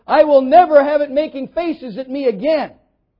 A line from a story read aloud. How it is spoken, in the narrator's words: he exclaimed